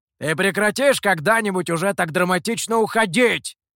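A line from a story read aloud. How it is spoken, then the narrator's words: Shout after someone. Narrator (Russian): крикнул Михоу вслед Гуэю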